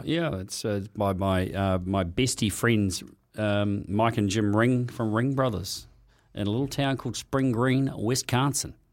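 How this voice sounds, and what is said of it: Noticeable regional accent. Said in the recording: “Oh, there it goes again, the accent.”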